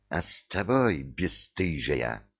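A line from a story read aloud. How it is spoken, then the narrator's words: Angry hiss. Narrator (Russian): прошипела разгневанная фурия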